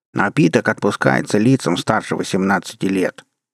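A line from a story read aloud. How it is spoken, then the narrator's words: Mocking, nasty voice. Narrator (Russian): Противным голосом передразнил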